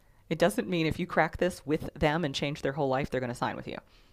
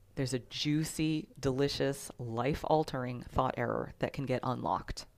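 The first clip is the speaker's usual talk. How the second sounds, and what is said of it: Slow, dramatic voice. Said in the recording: “saying it in my most slow and dramatic voice”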